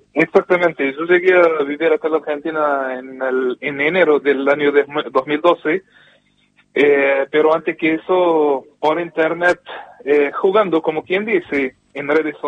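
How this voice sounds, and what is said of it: Córdoba Argentine Spanish accent. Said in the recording (Spanish): “ya sos un argelino con acento cordobés ... Yo tengo un acento más cordobés que otra cosa”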